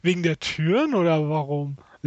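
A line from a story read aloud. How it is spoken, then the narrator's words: Laughing. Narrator (German): lachte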